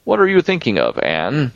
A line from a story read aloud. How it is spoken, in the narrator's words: she asked sharply